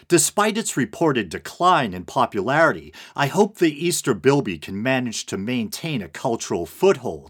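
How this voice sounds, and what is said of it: Non-Australian accent. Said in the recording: “I may not be Australian, as I'm sure is painfully clear by my accent,”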